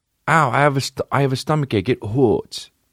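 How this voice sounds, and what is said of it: Baby voice. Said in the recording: “That's fucking gangster to do baby voice with your girl.”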